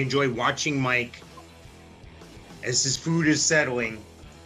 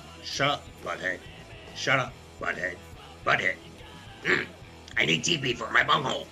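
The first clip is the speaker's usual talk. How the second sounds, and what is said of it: Bad cartoon character voice impressions. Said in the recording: “my very bad Beavis and Butthead impersonations”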